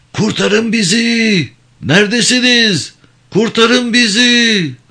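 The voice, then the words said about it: Shouting desperately for help. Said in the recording (Turkish): “Boşuna bağırma”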